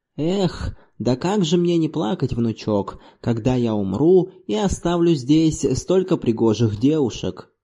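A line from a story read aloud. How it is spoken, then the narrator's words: Sighing. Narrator (Russian): Зорбас вздохнул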